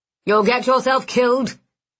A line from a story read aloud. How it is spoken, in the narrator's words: he snapped